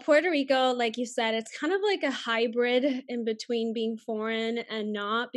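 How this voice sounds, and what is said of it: Spanish-influenced accent in English. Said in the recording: “I do have an accent. My first language is Spanish.”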